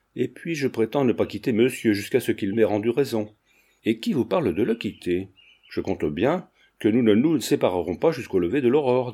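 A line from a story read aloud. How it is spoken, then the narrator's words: Plain. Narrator (French): dit Paul Cormier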